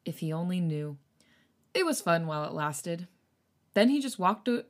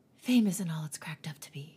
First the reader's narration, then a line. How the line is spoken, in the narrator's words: he whispers into his glass